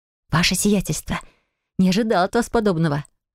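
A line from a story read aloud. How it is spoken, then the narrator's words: Noisy exhale. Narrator (Russian): Шумно выдохнула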